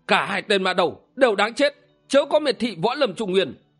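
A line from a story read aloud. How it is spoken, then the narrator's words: Loud shout. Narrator (Vietnamese): Tuệ Giác Thiền Sư quát lớn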